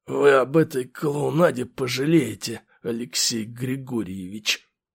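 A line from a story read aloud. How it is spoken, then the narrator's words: Strained hoarse wheeze. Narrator (Russian): прохрипел слегка придавленный мной гвардеец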